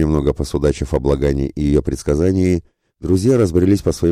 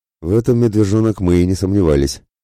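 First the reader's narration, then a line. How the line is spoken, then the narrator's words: Ironic snort. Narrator (Russian): хмыкнул иронично Мирослав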